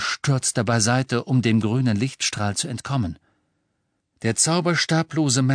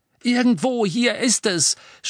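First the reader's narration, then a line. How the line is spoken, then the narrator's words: Shouting. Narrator (German): schrie Harry ihr zu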